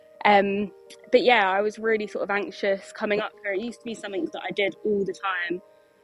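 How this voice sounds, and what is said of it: Out of breath while talking. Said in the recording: “If I'm a bit out of breath, it's because I'm up the field with my horses, mucking them out.”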